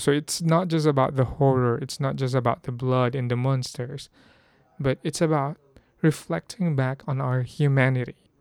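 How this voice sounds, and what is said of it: Hoarse voice. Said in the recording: “my voice is kind of getting hoarse”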